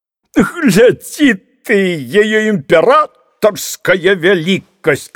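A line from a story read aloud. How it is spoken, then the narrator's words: Shouted. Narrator (Russian): крикнул некто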